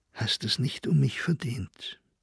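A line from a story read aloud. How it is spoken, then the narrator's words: Soft-spoken. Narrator (German): Sie sagte dem jungen Manne leise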